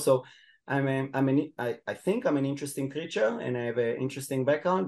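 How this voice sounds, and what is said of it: Israeli-accented fluent English. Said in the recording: “you can hear in my accent that I'm an Israeli, but my English is relatively fluent”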